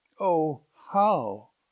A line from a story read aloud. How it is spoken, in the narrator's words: cried Jerome